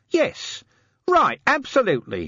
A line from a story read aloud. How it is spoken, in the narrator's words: he shouted